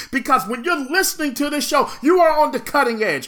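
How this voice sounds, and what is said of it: Loud, energetic, passionate delivery. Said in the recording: “with an energy and a passion and a conviction ... my voice is loud ... you hear the energy”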